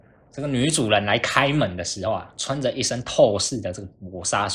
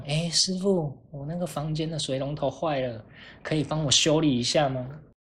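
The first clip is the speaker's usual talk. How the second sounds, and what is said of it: Cutesy, babyish sweet voice. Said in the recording (Chinese): “用很奶的声音说”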